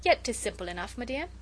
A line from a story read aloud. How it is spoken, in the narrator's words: he said, with that funny, half-shy, half-inane laugh of his